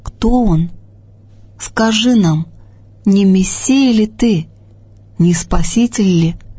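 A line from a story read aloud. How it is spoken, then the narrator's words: Timid questions from crowd. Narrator (Russian): спрашивали робко из толпы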